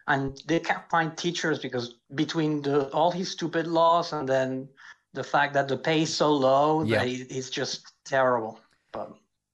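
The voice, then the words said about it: Spanish-sounding accent, not French. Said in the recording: “from your accent, it didn't sound like a French accent. It sounded from Spanish.”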